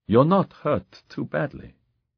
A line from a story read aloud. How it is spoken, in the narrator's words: Gabriel said gently